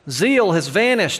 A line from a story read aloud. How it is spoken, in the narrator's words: exclaims the idle talker